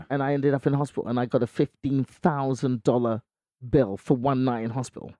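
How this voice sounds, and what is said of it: English accent. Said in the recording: “I don't know if you can hear my accent, but I'm not from here... I will disappear back to England... I can do a pretty good English accent”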